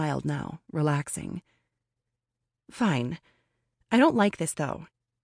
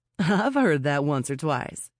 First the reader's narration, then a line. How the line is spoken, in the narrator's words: she chuckled